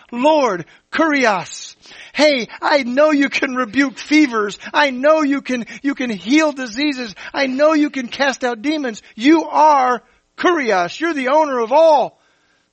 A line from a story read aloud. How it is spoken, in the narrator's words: This disgusting, unclean man begged Jesus, saying